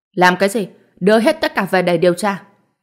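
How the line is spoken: Sharp shout. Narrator (Vietnamese): lập tức quát

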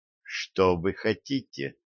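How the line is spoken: Metallic, cold question. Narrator (Russian): спросила она металлическим голосом

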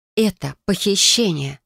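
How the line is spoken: Dazed exhale. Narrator (Russian): выдохнула заторможенно

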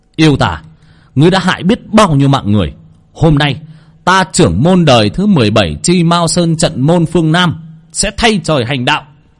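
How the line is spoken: Shouting. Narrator (Vietnamese): Thầy hét

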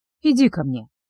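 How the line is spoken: Sudden soft voice. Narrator (Russian): внезапно проговорил он мягким голосом

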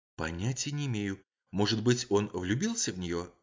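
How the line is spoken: Whispering. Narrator (Russian): ответила она также шепотом

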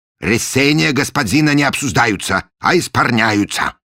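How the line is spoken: Stern pronouncement. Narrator (Russian): строго изрек он

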